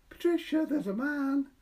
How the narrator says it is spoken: he cried

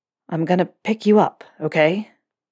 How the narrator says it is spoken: Draco asked, the vibration of his words rumbling through Harry's own chest

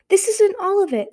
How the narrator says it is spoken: Sunny cried, whipping around to face the scavengers

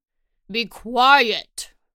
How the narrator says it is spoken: roared your father

